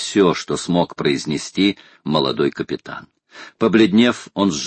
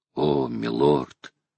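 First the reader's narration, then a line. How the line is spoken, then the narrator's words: Muttered. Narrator (Russian): пробормотал Джон Манглс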